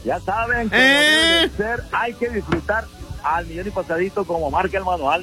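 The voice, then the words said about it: Announcer-style radio voice. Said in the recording (Spanish): “Con voz de locutor.”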